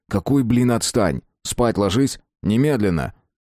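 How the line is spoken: Angry, sharp, clipped. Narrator (Russian): Сашка зло, хлестко отчеканил

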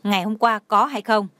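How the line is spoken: Angry. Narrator (Vietnamese): Lâm Sở Nhai tức giận nói

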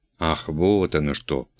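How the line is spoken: Thoughtful mutter. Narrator (Russian): пробормотал пан Бонди в задумчивости

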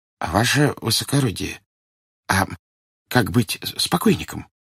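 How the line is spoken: Timid distant question. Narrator (Russian): робко спросил державшийся на почтительном отдалении начальник поезда

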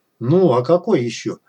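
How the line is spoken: Irritated reply. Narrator (Russian): раздраженно отозвался кот

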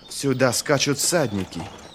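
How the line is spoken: Hoarse female voice. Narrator (Russian): хрипло сказала она

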